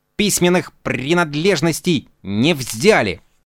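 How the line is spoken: Grumbled. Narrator (Russian): Он проворчал

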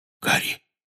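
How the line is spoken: Whisper. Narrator (Russian): прошептал он

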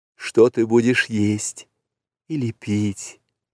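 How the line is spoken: Whisper. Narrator (Russian): прошептала Месуа

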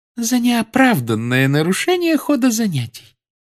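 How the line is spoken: Calm. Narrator (Russian): спокойно произнесла профессор Амбридж

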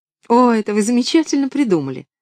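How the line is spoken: Cheerful sensible exclamation. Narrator (Russian): весело, но рассудительно воскликнула Поллианна

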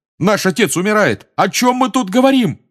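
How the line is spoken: Yelling. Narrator (Russian): заорал Джордж

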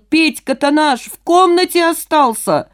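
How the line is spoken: Alarmed man shouting. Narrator (Russian): Одного жильца не хватало, и мужчина закричал

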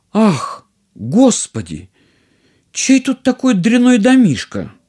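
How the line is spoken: Princess exclaiming. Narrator (Russian): принцесса воскликнула

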